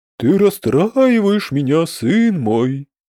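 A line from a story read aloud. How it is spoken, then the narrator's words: Sigh. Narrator (Russian): вздохнул Дрекозиус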